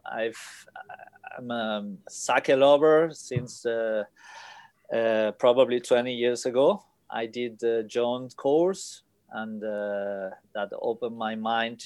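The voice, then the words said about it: Spanish accent. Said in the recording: “I guess from my accent. Everybody can. ... I'm from Spain.”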